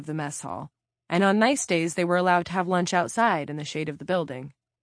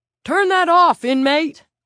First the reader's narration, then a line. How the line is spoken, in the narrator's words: Tig Murphy bellowed